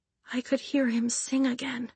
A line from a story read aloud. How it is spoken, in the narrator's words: she whispered